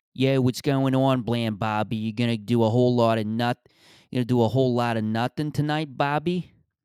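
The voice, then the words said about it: Rough Philly accent. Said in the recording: “Just that rough Philly accent.”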